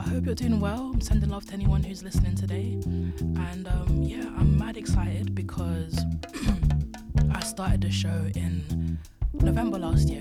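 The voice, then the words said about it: Weak, husky sore-throat voice. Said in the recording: “My voice is, I'm not doing this voice on purpose... I've had a sore throat over the last couple of days, so minimal voice today, minimal voice, but it sounds so smooth”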